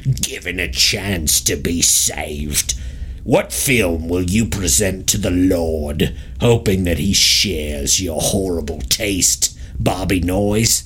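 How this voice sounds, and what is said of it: Speaks in a put-on accent. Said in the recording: “Let me do this back in my accent.”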